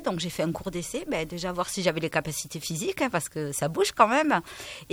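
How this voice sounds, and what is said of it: Béarn or Pyrenees regional French accent. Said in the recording (French): “avec l'accent que tu as, quand même... je me disais bien qu'il y a un Béarn derrière, là, un petit peu, ou du moins les Pyrénées”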